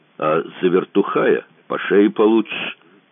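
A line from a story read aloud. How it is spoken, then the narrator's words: Menacing promise. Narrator (Russian): грозно пообещал верзила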